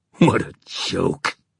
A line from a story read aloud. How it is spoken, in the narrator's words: he said savagely